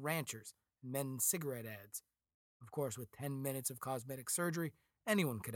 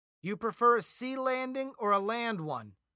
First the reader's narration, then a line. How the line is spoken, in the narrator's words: Alan shouted to Westwood, more to distract himself from his fear